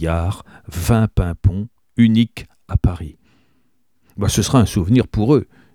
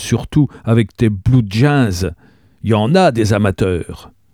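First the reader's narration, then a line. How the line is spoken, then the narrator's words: Terrified exclamation. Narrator (French): s'exclama Gabriel épouvanté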